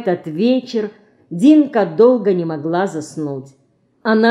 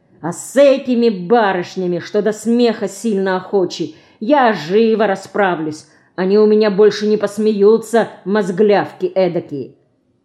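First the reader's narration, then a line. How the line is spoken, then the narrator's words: Irritated threatening promise. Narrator (Russian): давая волю накипевшему в нем раздражению против смешливых Динкиных подруг, грозно пообещал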